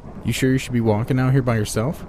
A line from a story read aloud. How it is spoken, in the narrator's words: asked